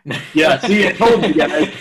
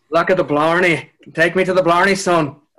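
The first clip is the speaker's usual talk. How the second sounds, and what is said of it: Put-on Irish accent. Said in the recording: “How good's your Irish accent?”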